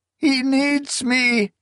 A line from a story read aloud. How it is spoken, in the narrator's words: she wailed